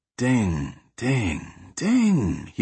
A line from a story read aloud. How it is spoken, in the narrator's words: he whispered so Yukiko couldn't hear the name